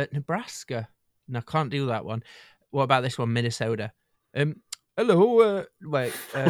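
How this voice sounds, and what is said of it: Usual voice. Nothing is said of it.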